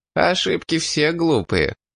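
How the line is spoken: Laughing mercenary. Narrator (Russian): рассмеялся наемник

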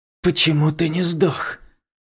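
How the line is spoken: Demon's exhaled words. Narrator (Russian): демон выдохнул

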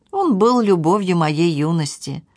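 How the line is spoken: Sighing, as if to herself. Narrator (Russian): Хозяйка снова вздохнула и произнесла как бы про себя

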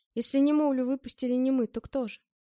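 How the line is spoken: Grumbling. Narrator (Russian): Я дзвенул и проворчал

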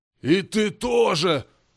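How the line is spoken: Growling demon. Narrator (Russian): зарычал демон

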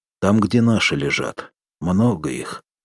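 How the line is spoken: Sighing speech. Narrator (Russian): вздохнул Соломатин

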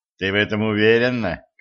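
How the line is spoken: Skeptical snort. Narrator (Russian): хмыкнул Денис

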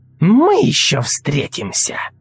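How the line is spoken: Growl. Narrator (Russian): прорычала Сельда

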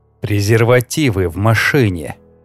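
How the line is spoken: Hoarse rasp, close up. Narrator (Russian): Хрипит мне в губы

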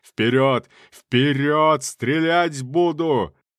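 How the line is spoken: Thunderous shout. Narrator (Russian): Генерал кричал своим громовым голосом

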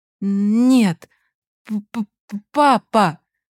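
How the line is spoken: Stammering. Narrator (Russian): Он запинался

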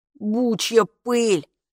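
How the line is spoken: Grumbled. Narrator (Russian): буркнул Капа

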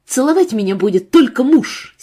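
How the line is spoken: Angry reply. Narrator (Russian): сердито ответила Марина

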